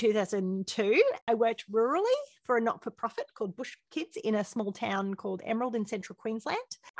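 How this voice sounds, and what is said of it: Australian accent. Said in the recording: “You can hear from our accents that we are Australian.”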